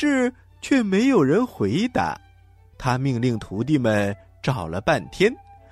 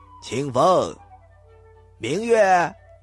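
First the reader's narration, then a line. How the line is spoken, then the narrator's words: Loud calling. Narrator (Chinese): 镇元大仙 他大声地喊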